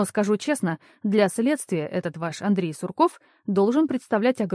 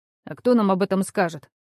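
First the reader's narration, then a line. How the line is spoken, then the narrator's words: Irritated. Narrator (Russian): раздраженно ответил Михаил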